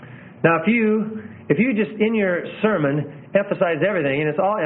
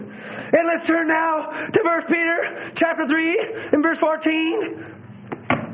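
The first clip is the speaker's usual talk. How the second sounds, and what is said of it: High, whiny preaching voice. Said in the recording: “preaching in a high, whiny voice, ... you're pressing through trying to be anointed”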